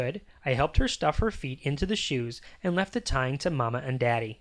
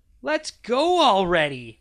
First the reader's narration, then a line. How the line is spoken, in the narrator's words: I cried